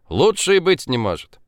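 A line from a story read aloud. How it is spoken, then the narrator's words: Laughing. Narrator (Russian): Она засмеялась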